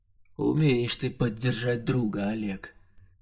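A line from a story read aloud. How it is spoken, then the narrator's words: Dejected mutter. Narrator (Russian): понуро пробормотал я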